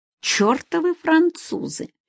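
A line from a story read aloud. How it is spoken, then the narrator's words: Gloomy mutter. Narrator (Russian): хмуро пробормотала Нина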